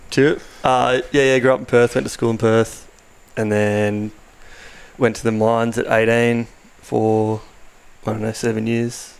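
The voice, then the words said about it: Weird New Zealand-tinged accent. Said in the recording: “you had a weird Kiwi accent”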